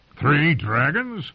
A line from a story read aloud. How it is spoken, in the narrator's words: Clegane gave a bark of laughter